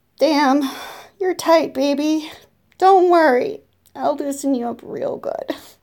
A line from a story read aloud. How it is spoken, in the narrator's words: grunt and say